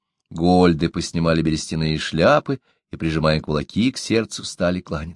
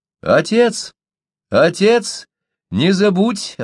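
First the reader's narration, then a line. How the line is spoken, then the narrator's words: Girl shouting from distance. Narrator (Russian): обращаясь к Локке, крикнула из лодки стройная девушка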